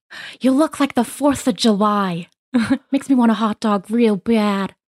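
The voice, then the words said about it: Imitates another person's voice. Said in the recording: “I am going to do a celebrity impersonation.”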